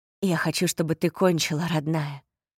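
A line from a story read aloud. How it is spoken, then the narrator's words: Muffled whisper. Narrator (Russian): прошептал он, зарывшись в ее волосы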